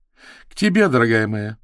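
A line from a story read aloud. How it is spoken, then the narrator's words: Laughing. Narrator (Russian): засмеялась Кейт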